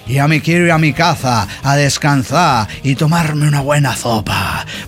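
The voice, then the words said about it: Exaggerated Andalusian accent with ceceo. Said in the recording (Spanish): “acento muy andaluz... exageraba el acento... hablado con ceceo, con todas las S y las Z, con sonido de Z española”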